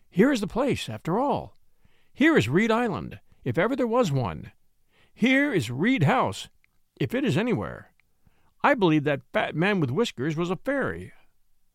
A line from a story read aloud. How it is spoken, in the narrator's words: cried Flambeau